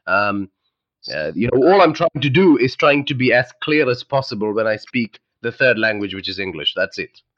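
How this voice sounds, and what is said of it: Underlying Indian accent in English. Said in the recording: “you can still hear the underlying Indian accent in my voice”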